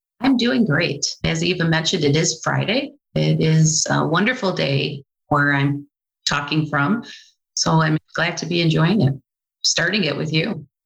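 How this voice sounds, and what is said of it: Mild American Midwestern accent. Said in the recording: “I can detect in your accent some Midwest vibes ... very Midwestern. And I guess I have an accent.”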